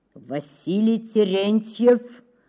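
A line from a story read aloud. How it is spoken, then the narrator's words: Muffled and menacing. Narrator (Russian): Произнес он глухо и грозно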